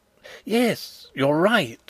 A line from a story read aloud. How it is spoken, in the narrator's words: exclaimed Fritz, his face brightening